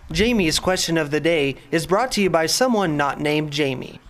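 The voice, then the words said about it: High tenor announcer voice. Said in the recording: “Our big voice guy just went like full extreme tenor ... That sounded a whole lot like Brennan. ... I really expected like a deep voice.”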